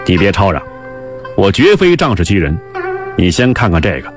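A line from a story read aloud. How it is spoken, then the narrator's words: Cold sneer. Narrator (Chinese): 冷笑道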